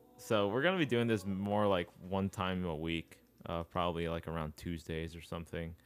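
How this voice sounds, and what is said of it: Monotone, dry voice. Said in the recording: “my monotone and dry voice”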